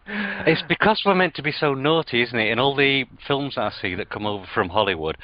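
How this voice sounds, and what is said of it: British accent. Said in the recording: “I absolutely love your accent ... a British accent”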